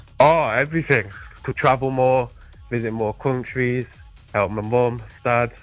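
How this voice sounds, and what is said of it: British accent. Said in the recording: “You got yourself a little bit of an accent, do you? You're from the old country... I'm from the UK.”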